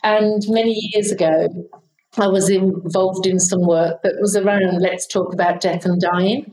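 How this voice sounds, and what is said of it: British accent. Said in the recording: “I'm from the UK, as you can probably tell from my accent”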